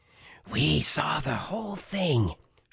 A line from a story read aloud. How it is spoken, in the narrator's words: she hissed